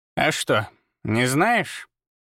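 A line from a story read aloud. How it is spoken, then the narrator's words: Grumbling. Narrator (Russian): проворчала она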